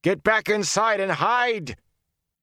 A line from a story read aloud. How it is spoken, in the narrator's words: The swelling roar of fighting and dying swallowed his words